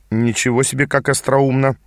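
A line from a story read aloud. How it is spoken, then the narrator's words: Dry remark. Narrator (Russian): сухо заметил я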